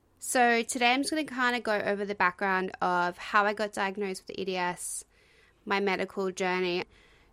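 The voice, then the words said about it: Out of breath, talking fast. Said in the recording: “I sound out of breath. ... I tend to talk really fast”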